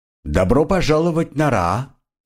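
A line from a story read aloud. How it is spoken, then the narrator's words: Loud and cheerful. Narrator (Russian): громко и весело сказала Шана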